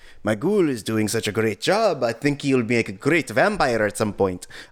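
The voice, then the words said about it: Half-committed Romanian accent. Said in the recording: “That sounded halfway to Indian. ... That sounded like you were not fully committed to an Apu impression. ... But it was Romanian.”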